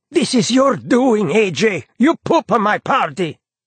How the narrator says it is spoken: Hassan shrieks out

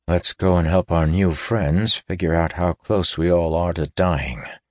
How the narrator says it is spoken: he said grimly

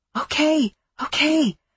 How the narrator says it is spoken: I whisper

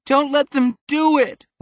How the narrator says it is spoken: wailed Peter

